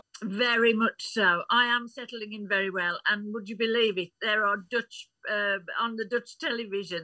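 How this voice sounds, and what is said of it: English Midlands accent. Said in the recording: “my accent ... the Midlands accent is a wonderful one”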